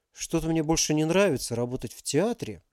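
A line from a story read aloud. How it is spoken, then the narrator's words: Mumble. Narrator (Russian): пробормотал Максим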